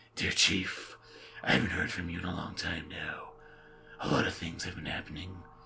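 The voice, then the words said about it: Creepy reading voice. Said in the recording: “another fun chapter with a creepy voice”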